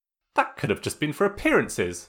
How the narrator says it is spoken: Sokka replied sharply

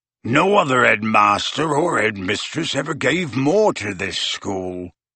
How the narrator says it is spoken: growled Hagrid

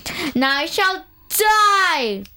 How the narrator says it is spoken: boomed the girl

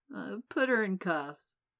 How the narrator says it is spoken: muttered to himself

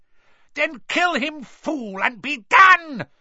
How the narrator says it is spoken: screeched Voldemort

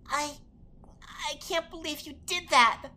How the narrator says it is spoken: Navi exclaimed

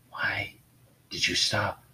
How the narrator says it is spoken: She asked softly, her voice unable to go any higher due to the damage her throat had taken

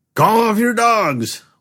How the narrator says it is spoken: one of the agents shouted

